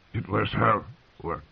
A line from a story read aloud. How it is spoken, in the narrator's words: Davos said again, more weakly